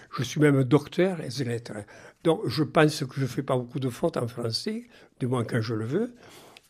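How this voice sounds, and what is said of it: Regional French accent. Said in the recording (French): “garder notre accent ... je suis fier d'être un français qui a un accent ... Il me trouvait un accent”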